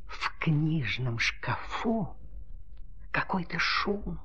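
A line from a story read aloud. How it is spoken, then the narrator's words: Whispered. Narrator (Russian): прошептала ручка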